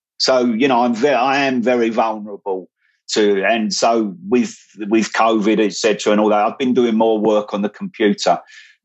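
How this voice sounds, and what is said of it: Voice of someone with a cold. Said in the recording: “I've got a cold”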